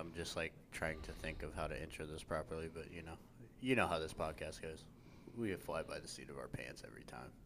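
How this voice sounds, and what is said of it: Flat, deadpan delivery. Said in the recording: “I might sound a little deadpan.”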